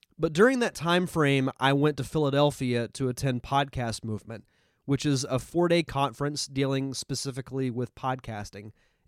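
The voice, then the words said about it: Nasal, congested voice. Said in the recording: “if I sound a little nasally, I apologize. I'm recovering from a sinus infection, so if my voice sounds a little out of the ordinary”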